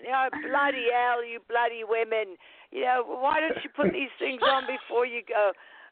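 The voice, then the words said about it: Thick British accent impression. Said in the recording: “My father had this big, thick British accent.”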